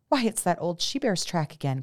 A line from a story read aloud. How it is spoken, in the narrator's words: cried somebody